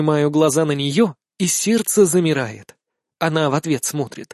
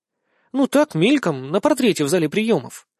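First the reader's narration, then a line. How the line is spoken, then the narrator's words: Uncertain. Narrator (Russian): признается неуверенно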